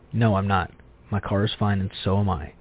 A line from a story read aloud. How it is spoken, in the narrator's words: firmly say